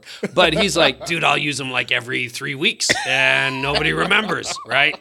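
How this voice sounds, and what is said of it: Raspy, gravelly imitated voice. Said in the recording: “Smoking a pack of cigarettes a day, that's what it sounds like ... great impersonation ... He sounds like he drinks a lot of beer and a lot of cigarettes”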